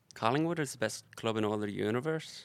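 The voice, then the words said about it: Put-on Irish accent. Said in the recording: “But can you do an Irish accent? ... It's not bad. ... That's really good. ... That was actually very good.”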